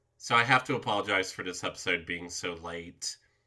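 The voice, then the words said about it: Congested voice from a head cold. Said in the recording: “As you might be able to tell from my voice, I'm recovering from a bad head cold. I've only recently regained the ability to breathe through my nose ... I just didn't sound normal at all ... I probably still don't sound like I normally do.”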